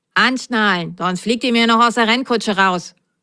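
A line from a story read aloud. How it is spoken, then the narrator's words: Stern. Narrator (German): sagte die Nummer 12 streng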